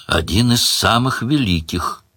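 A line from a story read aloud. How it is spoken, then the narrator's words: Sad demon. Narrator (Russian): печально подтвердил демон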